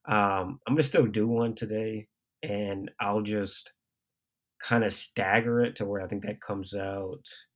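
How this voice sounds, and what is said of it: Very nasal, congested voice. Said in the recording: “I've been sick as shit... my voice is very nasally right now”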